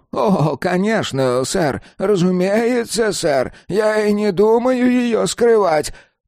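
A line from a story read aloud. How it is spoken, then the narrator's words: Hoarse old man. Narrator (Russian): прохрипел старик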